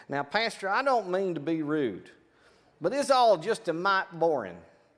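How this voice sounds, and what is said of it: Put-on East Texas accent. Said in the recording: “in your East Texas accent, you're saying”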